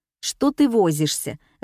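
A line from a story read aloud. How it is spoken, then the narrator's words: Irritated question. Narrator (Russian): раздраженно спросила учительница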